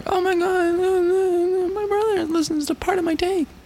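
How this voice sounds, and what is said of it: Imitates girls gushing about podcasts. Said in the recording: “It's my impression of girls talking about podcasts.”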